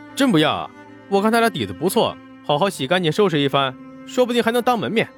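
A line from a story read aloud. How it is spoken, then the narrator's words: Insistent shout. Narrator (Chinese): 沈梦生还是不肯放弃，追了两步喊道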